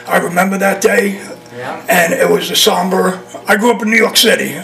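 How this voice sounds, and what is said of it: New York accent. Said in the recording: “This ain't a Florida accent, by the way.”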